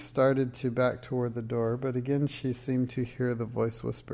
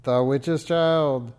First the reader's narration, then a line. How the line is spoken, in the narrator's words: roared